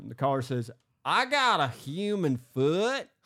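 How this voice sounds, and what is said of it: Put-on Southern accent. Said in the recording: “he has a very significant Southern accent. So I am going to be using a Southern accent and doing my best impression”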